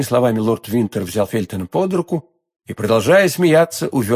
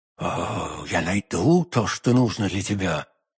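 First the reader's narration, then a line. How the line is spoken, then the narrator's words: Whisper through clenched teeth. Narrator (Russian): прошептала сквозь зубы миледи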